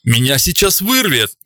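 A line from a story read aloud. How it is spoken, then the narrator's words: Exclaiming. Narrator (Russian): воскликнув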